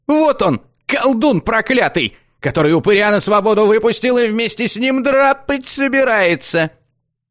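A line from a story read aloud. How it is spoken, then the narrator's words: Yelling from a distance. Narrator (Russian): Завопил он с безопасного расстояния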